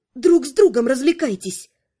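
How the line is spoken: Spiteful. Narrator (Russian): зло пожелала она

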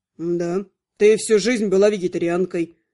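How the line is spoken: Calm, elf. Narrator (Russian): спокойно заявил эльф

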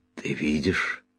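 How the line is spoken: Hoarse question. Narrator (Russian): хрипло спросил я

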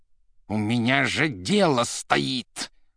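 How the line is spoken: Growling. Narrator (Russian): уже рычал Римский

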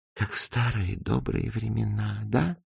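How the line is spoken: Whisper. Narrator (Russian): прошептала

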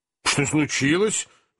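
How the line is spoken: Elderly man exclaiming. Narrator (Russian): воскликнул пожилой джентльмен

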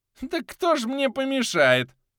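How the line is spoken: Old woman cackling. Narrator (Russian): Захохотала старуха

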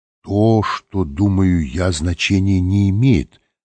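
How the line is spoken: Plain. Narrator (Russian): ответил Лэнгдон

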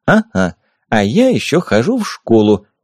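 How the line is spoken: Giggling. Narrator (Russian): хихикнула Юля

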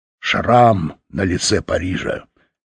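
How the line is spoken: Angry grumble. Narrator (Russian): сердито проворчал Фаш

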